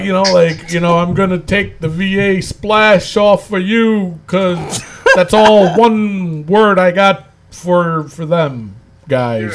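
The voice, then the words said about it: Bad imitation of another person's voice. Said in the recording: “That's a very bad impression, but holy cow, that was very bad.”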